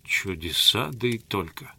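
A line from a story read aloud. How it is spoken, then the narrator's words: Mutter. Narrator (Russian): пробормотал Грингуар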